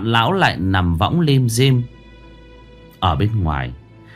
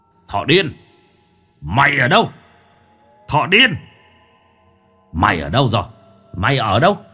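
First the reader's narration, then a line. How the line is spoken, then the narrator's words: Roaring. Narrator (Vietnamese): tiếng gầm thét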